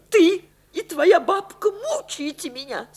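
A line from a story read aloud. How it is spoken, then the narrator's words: Sobbing. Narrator (Russian): сказала она, всхлипнув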